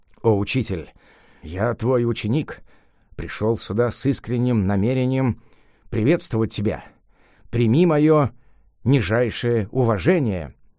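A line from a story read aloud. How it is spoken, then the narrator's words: Monkey king mumbling humbly. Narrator (Russian): царь обезьян … бормотал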